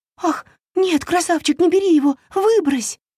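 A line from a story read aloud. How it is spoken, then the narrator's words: Agitated wailing, fairy. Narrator (Russian): взволнованно запричитала фея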